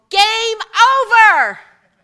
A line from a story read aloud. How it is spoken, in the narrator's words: they yelled